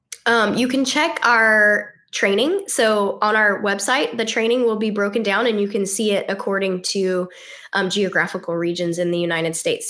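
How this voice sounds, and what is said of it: Unwell, sick-sounding voice. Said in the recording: “Sorry about my voice. I am a little under the weather”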